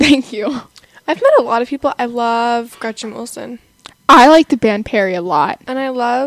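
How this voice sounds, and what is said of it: Usual voice. Nothing is said of it.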